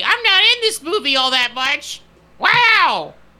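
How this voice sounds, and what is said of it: Cartoon character voice impression. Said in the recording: “I can maybe try to do the one from the Goofy movie ... PJ”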